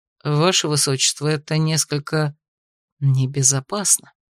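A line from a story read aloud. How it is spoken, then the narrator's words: Secretive whisper. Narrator (Russian): произнес он шепотом, чтобы остальные сопровождающие не услышали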